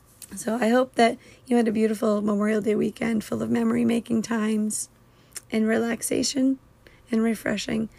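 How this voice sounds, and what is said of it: Strained, sore-sounding voice. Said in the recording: “my voice is starting to hurt a little bit ... this kind of voice”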